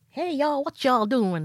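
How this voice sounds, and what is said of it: Put-on Southern accent. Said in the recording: “it was like a southern accent”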